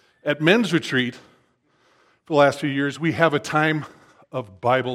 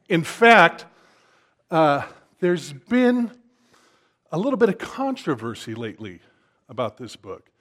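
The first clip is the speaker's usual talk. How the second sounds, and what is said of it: Sarcastic tone. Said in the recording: “I'm talking like this so you know I'm being sarcastic”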